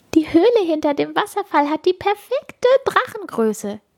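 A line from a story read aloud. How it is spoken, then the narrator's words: Giggling. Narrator (German): kichern sie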